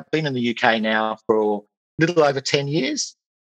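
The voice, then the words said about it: Australian accent. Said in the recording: “My accent probably gives that away... I'm an Australian”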